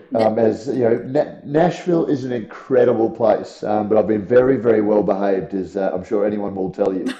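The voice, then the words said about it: Tired, worn-out voice. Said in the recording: “You can probably hear from my voice. I've been talking um, for three days solid”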